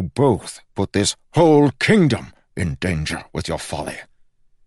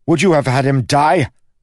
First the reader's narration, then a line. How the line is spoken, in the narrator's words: snapped Kel